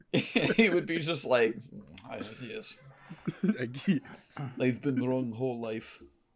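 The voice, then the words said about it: Attempted Russian accent. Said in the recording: “Were you trying to do a Russian accent there? That was funny.”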